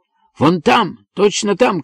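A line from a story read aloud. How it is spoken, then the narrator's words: Shouting. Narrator (Russian): кричал Джей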